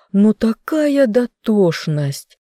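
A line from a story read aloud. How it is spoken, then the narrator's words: Moaning. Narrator (Russian): стонал Рэм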